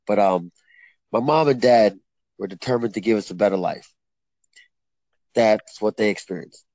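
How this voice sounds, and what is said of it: Choked-up, emotional reading voice. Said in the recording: “I'm getting choked up a little, even thinking about it a little bit.”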